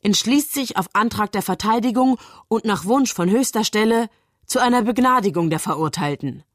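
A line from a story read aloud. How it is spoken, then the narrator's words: Reading aloud. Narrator (German): liest Bell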